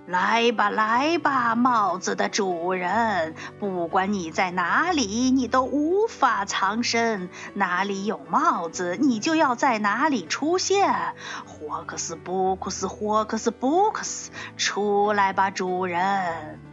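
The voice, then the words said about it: Booming thunderous voice. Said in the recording (Chinese): “用打雷一样的声音说”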